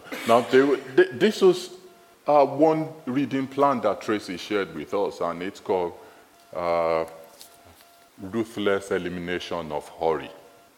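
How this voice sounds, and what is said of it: Nigerian accent. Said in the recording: “it's my Nigerian accent. That's the way I say it.”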